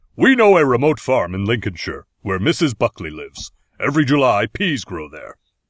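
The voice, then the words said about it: Deep sexy Klingon character voice. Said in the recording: “Can you please say something in a Worf voice? Make it sexy.”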